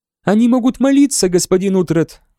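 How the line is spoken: Sweet suggestion. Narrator (Russian): милым голосом предположила Этельфлет

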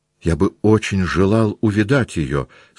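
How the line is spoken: Plain. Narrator (Russian): сказал Пьер

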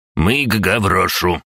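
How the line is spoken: Haughty through teeth. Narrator (Russian): высокомерно процедил Карпов

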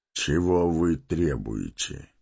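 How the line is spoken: Level even voice. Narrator (Russian): спросил ровным голосом Гэндальф

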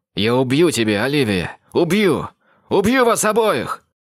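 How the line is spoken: Shout. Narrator (Russian): крикнул

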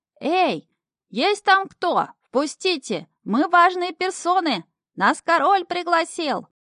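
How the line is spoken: Bellowing at full throat. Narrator (Russian): Шнырь орал во все свое мохнатое горло

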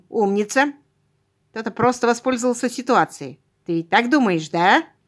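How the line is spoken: Snorting. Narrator (Russian): он хмыкнул

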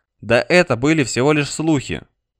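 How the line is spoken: Forced calm reply. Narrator (Russian): как мог спокойно ответил Алек

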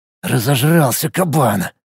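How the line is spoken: Muttered through teeth. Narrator (Russian): сквозь зубы пробормотал он

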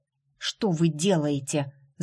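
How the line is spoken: Hissed. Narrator (Russian): зашипела Джейд

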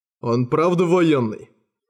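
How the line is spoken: Scoffing snort. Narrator (Russian): хмыкнул Ангасун

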